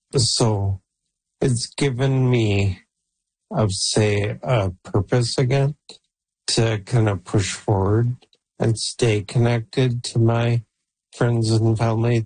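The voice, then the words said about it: Weak, failing voice. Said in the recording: “as you can tell, my voice is going.”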